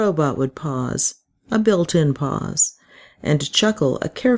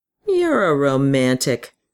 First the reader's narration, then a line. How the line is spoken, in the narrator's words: Mark would say scornfully